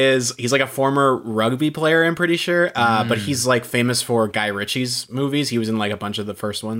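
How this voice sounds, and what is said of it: Usual voice. Nothing is said of it.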